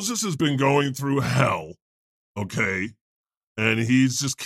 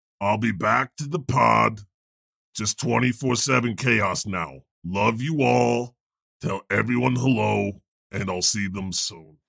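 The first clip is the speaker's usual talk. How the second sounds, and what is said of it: Imitates another person's voice. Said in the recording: “my Moses impersonation”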